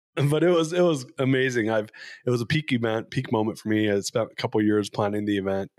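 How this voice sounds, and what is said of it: Slightly raspy voice. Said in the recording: “You're going to hear my voice a little raspy right now because it ended up being a super spreader event ... I was one of them.”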